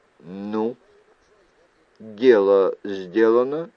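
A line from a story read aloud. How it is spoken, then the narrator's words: Plain. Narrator (Russian): спросили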